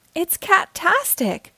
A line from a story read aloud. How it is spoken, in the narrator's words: Kitty Fairy exclaimed